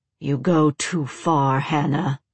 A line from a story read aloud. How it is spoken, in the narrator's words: Vincent growled